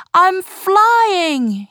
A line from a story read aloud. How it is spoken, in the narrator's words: he cried